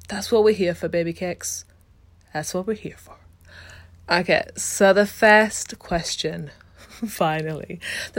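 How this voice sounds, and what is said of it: Muddled accent. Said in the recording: “my muddled accent”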